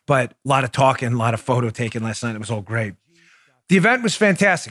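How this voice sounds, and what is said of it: Worn-out, tired voice. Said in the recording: “My voice is a little worn out.”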